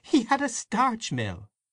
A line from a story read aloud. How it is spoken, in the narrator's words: said Aunt Kate, laughing